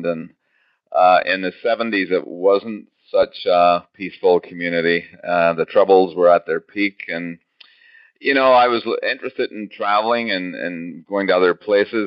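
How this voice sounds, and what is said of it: Northern Irish accent. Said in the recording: “you have a bit of an accent ... I was born and raised in a very quiet little place, you're right about the accent, called Belfast in Northern Ireland”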